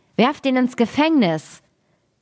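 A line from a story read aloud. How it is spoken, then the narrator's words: Angry shout. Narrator (German): der junge König wurde zornig darüber und rief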